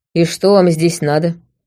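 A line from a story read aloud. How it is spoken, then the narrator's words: Rider, grim question. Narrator (Russian): мрачно поинтересовался все тот же всадник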